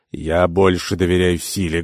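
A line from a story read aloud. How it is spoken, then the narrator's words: Rude interruption. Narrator (Russian): грубо вмешался Сафар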